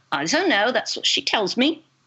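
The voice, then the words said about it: Deliberately bad put-on accent. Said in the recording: “this is my bad accent.”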